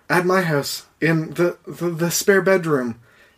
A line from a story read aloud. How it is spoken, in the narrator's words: she said nervously